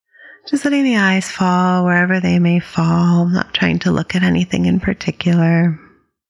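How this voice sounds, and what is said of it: Raspier than usual voice. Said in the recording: “my voice is a little raspier than usual ... It's just a little dryness this time of year.”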